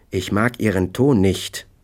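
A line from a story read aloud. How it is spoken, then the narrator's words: Plain. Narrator (German): sagte er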